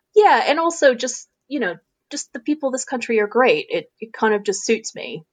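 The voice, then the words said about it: American accent. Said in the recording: “I think people automatically find it interesting when I open my mouth and and my accent comes out”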